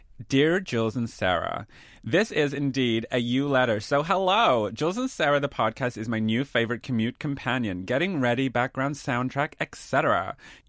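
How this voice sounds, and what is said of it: Put-on American accent. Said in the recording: “we do read in accents, and I don't know if this American accent is a Chicago one ... it is the only American accent we've got”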